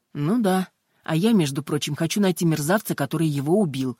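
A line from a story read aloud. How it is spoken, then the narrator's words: Snapping. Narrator (Russian): огрызнулась инспектор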